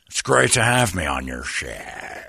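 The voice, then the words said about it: Over-the-top imitation of another person's voice. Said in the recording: “doing my impression of him ... you're over the top”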